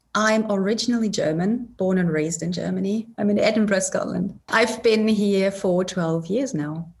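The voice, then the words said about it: A different, non-local accent. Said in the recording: “has a little bit of a different accent than from me”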